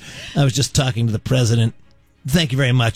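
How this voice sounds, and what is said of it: Imitates another person's voice. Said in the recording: “That's my Tiger impression.”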